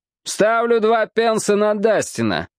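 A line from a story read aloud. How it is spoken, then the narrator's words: Loud male announcement. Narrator (Russian): громко объявил один англичанин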